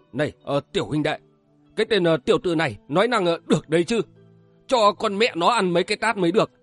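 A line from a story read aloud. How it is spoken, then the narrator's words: Angry low muttering. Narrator (Vietnamese): cô Yến La Hán tức tối lầm bầm nho nhỏ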